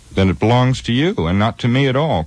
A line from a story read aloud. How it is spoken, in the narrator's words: cried Frodo in amazement